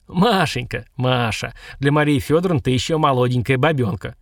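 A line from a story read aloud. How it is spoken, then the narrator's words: Chuckling man. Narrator (Russian): хохотнул мужичок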